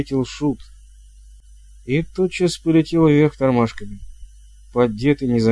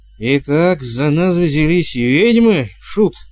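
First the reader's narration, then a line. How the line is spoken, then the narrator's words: Growl. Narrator (Russian): прорычал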